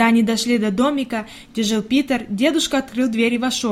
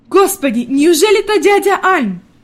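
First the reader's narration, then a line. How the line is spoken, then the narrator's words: Pleasantly surprised elderly exclamation. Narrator (Russian): воскликнула бабушка в приятном удивлении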